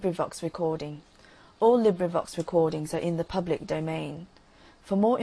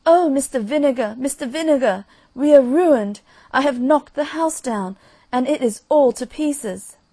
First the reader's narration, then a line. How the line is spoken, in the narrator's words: she exclaimed